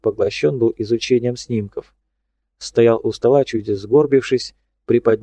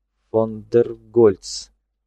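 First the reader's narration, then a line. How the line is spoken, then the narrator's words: Through gritted teeth. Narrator (Russian): процедил он сквозь зубы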